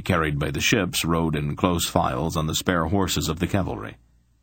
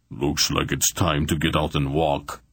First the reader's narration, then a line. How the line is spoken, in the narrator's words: he grunted